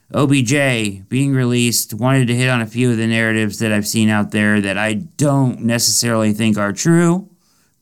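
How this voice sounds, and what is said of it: Sick-sounding voice. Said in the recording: “Been under weather this week. I can, if you can hear it in my voice, I apologize.”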